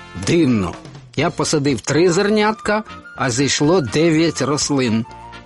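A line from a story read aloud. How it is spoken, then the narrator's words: Mutter. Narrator (Ukrainian): бурмотів він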